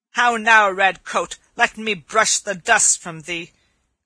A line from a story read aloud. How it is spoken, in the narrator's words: cried he